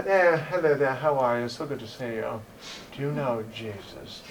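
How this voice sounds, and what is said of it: Put-on British accent. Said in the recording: “I don't know what's with the British accent either”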